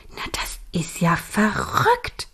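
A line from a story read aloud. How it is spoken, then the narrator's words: Murmuring. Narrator (German): murmelte Millie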